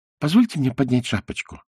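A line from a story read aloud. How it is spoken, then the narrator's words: Timid request. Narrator (Russian): робко попросил Пиноккио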